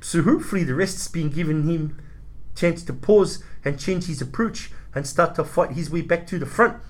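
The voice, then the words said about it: Dodgy put-on accent. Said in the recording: “that's your dodgy accent for the show”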